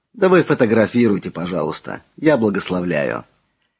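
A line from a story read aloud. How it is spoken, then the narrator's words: Soft, smiling father. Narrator (Russian): отец улыбнулся и мягко сказал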